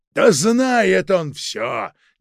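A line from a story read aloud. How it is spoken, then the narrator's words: Exasperated shout. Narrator (Russian): не в силах больше выносить эту игру, выкрикнул Протасов-старший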